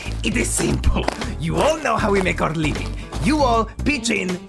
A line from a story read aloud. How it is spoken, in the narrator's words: The Fearbulg begins pacing furiously across the tent and going